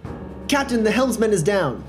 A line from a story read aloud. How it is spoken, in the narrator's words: And I shout out to her